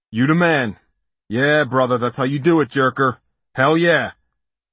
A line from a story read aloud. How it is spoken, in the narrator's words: the dust ball hollered